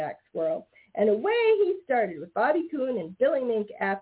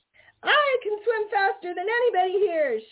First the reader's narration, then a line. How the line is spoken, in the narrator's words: shouted Little Joe Otter